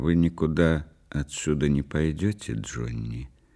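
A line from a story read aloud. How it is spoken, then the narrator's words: Quiet. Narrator (Russian): тихо сказала она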